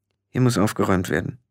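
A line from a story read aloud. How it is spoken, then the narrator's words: Muttered. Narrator (German): murmelte Tiffany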